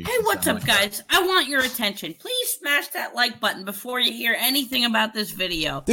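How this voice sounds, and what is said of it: Upbeat YouTuber news-broadcaster voice. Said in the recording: “the YouTuber voice is like news broadcaster voice”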